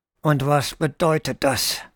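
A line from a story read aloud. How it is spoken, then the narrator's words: Hissing through clenched teeth. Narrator (German): zischte zwischen den zusammengepressten Kiefern hervor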